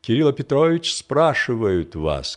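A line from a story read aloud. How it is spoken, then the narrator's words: Plain. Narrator (Russian): сказал вошедший слуга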